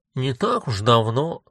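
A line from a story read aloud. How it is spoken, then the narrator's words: Grumbling. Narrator (Russian): проворчала вторая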